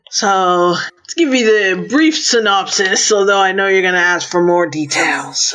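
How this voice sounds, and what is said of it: American accent. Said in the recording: “born in London with grandma. Now you got American accent”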